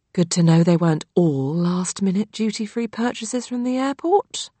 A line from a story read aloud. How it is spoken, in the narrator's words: mumbled my mother beneath her breath